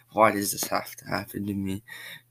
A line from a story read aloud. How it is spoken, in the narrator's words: cries Candace